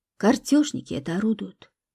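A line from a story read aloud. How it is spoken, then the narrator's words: Quiet explanation. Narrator (Russian): негромко пояснила Любаша тетя Оля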